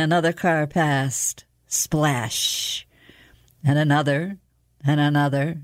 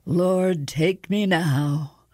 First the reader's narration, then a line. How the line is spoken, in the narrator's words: She groaned, muttering